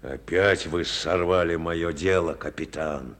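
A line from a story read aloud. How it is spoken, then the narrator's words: Angry muttering. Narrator (Russian): пробурчал он злобно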